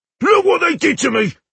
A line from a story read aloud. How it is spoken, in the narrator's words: he shouted furiously